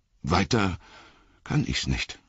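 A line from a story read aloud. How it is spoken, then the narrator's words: Stammering, embarrassed. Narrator (German): stammelte Sam und wurde rot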